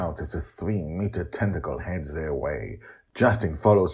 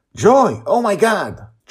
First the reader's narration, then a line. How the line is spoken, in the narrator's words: Justin yells